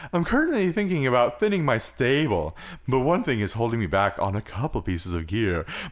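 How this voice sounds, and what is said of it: Put-on character voice. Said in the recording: “The moon voice ... I guess I could do the moon voice for this.”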